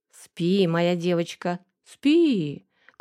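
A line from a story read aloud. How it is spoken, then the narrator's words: Sly drawl. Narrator (Russian): коварно протянул я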